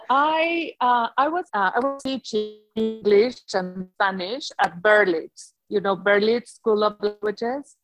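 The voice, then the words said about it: Foreign accent in English. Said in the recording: “if you don't understand, tell me, okay? Because I will never get rid of my accent.”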